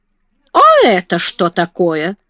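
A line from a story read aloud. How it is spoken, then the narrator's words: Sudden surprised exclamation. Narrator (Russian): вдруг воскликнула она, увидав книги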